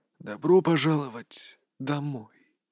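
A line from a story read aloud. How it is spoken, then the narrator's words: Whispered. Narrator (Russian): прошептал голос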